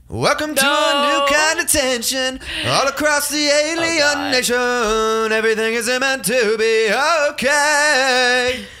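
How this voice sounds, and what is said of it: Sings imitating a rock singer. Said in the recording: “That's my Green Day impression.”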